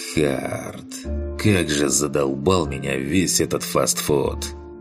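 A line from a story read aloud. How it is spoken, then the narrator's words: Sighing. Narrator (Russian): Я вздохнул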